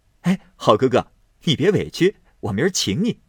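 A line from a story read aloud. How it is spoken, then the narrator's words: Laughing. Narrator (Chinese): 宝玉笑道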